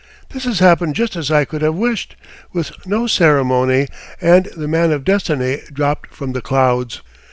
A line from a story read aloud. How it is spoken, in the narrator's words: I exclaimed